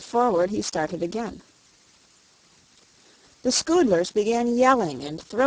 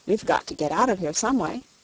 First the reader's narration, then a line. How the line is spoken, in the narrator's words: he said firmly